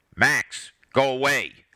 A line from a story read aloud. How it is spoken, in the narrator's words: Harold shouted